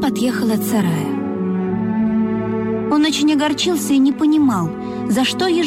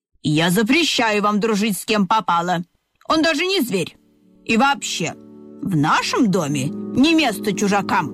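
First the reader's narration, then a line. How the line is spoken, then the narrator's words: Stern snort. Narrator (Russian): строго фыркнула мама ежиха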